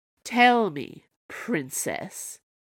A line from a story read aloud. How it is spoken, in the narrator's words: growled the Snow Queen